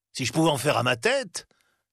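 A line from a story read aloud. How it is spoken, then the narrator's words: Indignant tone. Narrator (French): continua Scrooge d'un ton indigné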